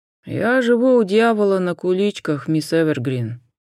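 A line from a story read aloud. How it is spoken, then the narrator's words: Sighing. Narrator (Russian): вздохнул сержант Суарес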